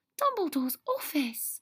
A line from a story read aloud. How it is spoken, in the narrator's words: Hermione breathed